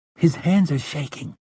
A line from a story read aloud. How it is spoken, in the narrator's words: Jake murmured